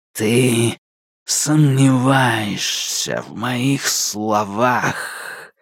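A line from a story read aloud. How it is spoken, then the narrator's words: Powerful exhale. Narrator (Russian): мощно выдохнул он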